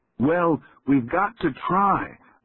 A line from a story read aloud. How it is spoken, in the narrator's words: Will shouted